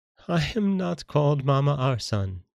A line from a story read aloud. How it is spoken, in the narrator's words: said Agnella, laughing